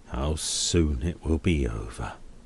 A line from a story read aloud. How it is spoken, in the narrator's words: repeats gloomily